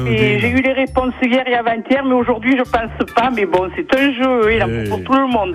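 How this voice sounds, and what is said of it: Singsong regional French accent. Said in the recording (French): “avec cet accent qui chante et que j'aime tant”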